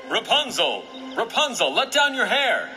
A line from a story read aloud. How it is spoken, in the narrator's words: the prince called out